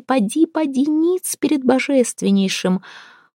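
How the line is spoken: Grumbling. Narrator (Russian): Агавдрим ворчал на ее людей

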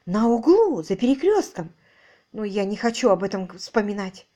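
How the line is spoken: Exclaimed. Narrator (Russian): Воскликнула она

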